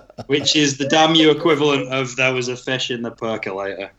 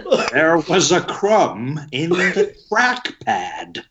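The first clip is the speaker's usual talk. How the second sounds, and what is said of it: Imitates another person's voice. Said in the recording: “That was a really good impression.”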